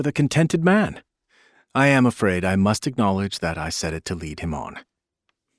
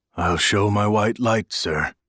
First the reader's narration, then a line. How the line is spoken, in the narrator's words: he said in his peculiar low voice